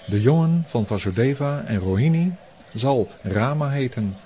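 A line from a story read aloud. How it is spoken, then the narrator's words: Plain. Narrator (Dutch): zei hij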